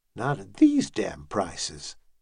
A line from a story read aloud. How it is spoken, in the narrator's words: Turgal muttered